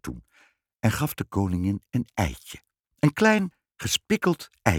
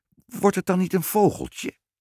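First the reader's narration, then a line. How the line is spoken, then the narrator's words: Trembling voice, queen. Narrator (Dutch): zei de koningin met bevende stem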